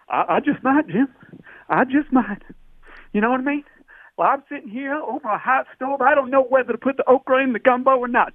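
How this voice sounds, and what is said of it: Fake Louisiana accent. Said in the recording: “stop faking that accent ... the fake ... in Louisiana”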